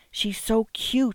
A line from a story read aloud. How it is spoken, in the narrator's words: whispered